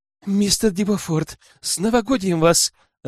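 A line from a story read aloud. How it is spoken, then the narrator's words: Joyful shout over loud music. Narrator (Russian): радостно прокричала Сулейн, так как грянул императорский вальс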